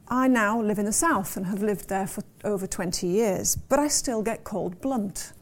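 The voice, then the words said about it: Northeastern English regional accent. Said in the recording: “as I'm sure you can tell by my accent, a northeasterner by birth and upbringing”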